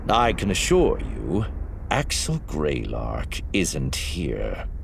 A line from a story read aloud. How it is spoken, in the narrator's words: Master Sun said, his voice a deep rumble